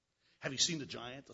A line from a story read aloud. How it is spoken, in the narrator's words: the soldier said